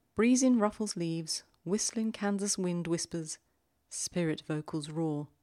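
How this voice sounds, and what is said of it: Put-on accent reading poem. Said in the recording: “I'm not sure I had the right accent for that”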